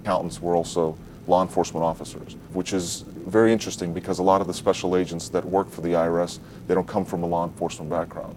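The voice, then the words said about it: Foreign accent, possibly Ukrainian. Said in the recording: “Pay attention to his accent. ... Ukrainian, probably.”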